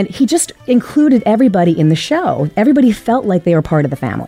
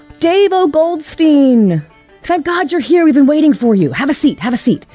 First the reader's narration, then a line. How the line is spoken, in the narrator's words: he would yell out from the stage